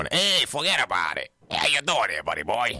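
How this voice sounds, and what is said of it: Put-on New York accent. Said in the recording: “Is that just a New York accent?”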